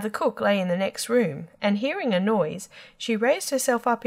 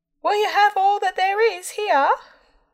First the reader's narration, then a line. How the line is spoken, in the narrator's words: Tom called out as loud as he could bawl